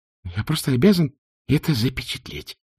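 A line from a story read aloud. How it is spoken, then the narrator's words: Muttering. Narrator (Russian): пробормотал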